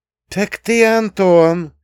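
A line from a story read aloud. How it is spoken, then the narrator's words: Loud cheerful laughter. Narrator (Russian): Княжна весело и громко рассмеялась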